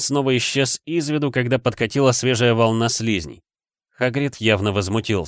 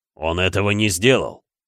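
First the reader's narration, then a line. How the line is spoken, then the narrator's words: Growl. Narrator (Russian): зарычал он на Гермиону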